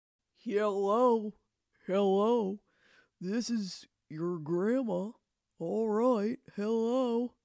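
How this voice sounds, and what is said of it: Imitates an old grandmother's voice. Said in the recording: “That sounds exactly like my grandmother ... I do an impression of my grandmother”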